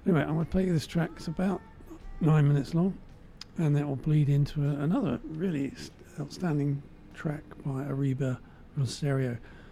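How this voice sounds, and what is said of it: Voice going hoarse, losing voice. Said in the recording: “<clears throat> for some reason, I'm losing my voice as well.”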